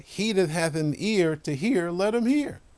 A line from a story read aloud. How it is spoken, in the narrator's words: he cried